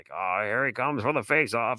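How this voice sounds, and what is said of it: Old-timey hockey announcer voice. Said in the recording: “that's my old timey 1990 because that was old timey ... Old timey hockey impersonation.”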